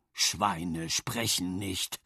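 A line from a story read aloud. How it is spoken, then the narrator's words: Husky, choked voice. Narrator (German): sagte mit belegter Stimme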